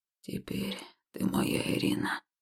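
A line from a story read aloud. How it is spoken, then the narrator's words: Hoarse whisper. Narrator (Russian): охрипшим голосом шепнул он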